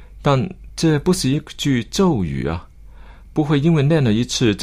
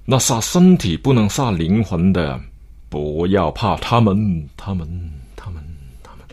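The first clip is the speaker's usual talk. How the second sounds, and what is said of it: Emotional, dramatic emphatic recitation. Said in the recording (Chinese): “往往会加上了感情的口音”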